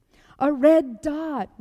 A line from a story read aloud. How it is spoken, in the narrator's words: we all yelled